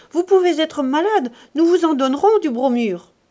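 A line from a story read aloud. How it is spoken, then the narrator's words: Shouted. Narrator (French): cria-t-elle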